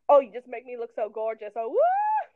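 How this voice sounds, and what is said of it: Imitates a sitcom character's accent. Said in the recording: “his, like, Blanche from Golden Girls voice ... Blanche from Golden Girls obviously has, like, that accent”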